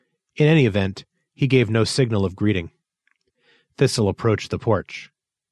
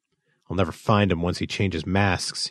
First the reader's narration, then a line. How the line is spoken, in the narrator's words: he muttered